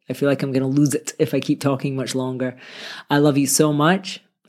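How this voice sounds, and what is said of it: Slightly raspy voice. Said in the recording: “my voice is a little bit raspy. I've had this bad cold this week”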